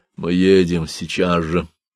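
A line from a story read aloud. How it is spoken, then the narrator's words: Tight, heavy voice. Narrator (Russian): Он сказал Едикону таким же тугим, тяжелым голосом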